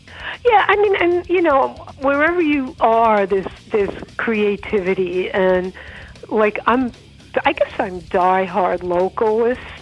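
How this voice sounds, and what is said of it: Strong Queens New York accent. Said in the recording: “I never really got out of Rockaway. You could tell that by my accent ... Deep Queen.”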